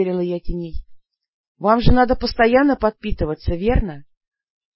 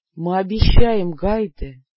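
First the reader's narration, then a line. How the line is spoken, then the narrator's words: Hoarse reply. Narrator (Russian): хрипло отозвался ас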